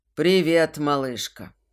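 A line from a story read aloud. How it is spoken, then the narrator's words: Growling velvety voice. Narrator (Russian): Рычащий бархат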